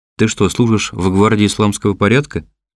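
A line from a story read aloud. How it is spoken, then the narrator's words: Plain. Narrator (Russian): спросила Ксения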